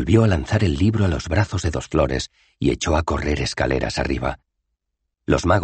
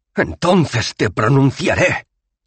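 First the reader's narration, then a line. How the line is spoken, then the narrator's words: Shrieking. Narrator (Spanish): chilló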